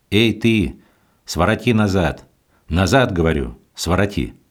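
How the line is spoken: Menacing shout. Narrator (Russian): Митрополичий кучер, предполагая, что это встречный крестьянин, грозно закричал

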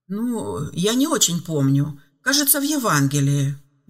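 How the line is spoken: Uncertain reply. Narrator (Russian): неуверенно ответил Филипп

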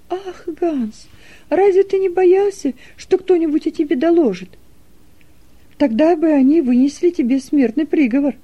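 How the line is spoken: Frightened exclamation. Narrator (Russian): В страхе воскликнула Нета

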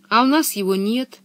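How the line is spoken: Sad sigh. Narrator (Russian): печально вздохнула Анника

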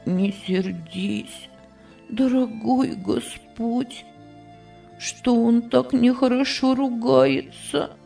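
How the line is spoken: Boy's quiet prayer. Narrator (Russian): Тихо молился мальчик

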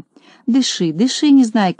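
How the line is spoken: Gentle, kind. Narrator (Russian): ласково сказал доктор Пилюлькин

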